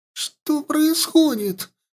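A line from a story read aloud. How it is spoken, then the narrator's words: Squeak. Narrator (Russian): пропищала она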